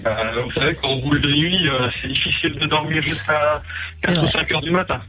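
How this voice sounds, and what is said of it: Slight Alsatian French accent. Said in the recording (French): “on croit entendre un petit accent ... Colmar-Mulhouse ... Du côté de l'Alsace”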